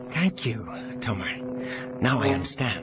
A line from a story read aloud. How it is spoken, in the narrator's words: Jansen whispered back